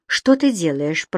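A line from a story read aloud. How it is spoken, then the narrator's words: Mumbling. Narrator (Russian): пробормотала Энсли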